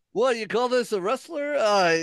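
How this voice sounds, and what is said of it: Old Jewish man voice impression. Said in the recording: “My old Jewish man, terrible impression.”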